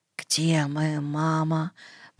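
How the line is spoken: Whispered. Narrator (Russian): прошептал он

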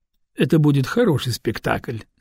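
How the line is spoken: Calm. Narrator (Russian): спокойно ответил Лаирак

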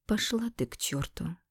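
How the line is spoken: Calm reply. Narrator (Russian): спокойно ответила

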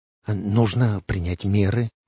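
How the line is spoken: Whisper. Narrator (Russian): прошептал Уэсли Моуч

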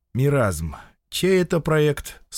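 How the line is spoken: Calm question. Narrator (Russian): спросил его приятель спокойно

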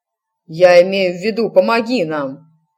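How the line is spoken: Barked. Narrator (Russian): рявкнул напролом

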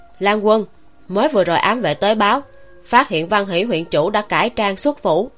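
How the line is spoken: Hurried raised voice. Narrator (Vietnamese): Bạch Nghĩa đã vội vội vàng vàng chạy tới, cao giọng nói

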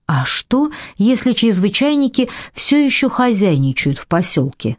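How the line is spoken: Plain. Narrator (Russian): спросила она

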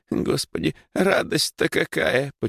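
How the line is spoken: Sobbing old woman. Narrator (Russian): почему-то всхлипнула баба Маша

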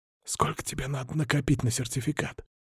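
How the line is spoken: Excited whisper. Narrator (Russian): спросил я шепотом, желая отвлечься и унять возбуждение

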